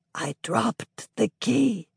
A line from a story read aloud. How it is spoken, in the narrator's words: him whisper